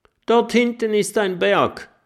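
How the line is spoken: Calling out. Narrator (German): ruft Mathilda

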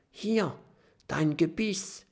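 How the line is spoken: Whisper. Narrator (German): flüstert Kokosnuss

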